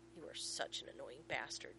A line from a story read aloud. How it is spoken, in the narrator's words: John growls